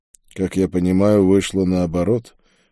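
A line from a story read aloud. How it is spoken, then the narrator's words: Gloomy. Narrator (Russian): мрачно ответил я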